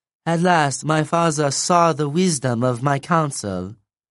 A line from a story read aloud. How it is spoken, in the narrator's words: Keone purred